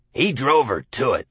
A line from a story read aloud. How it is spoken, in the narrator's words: McCandless said grimly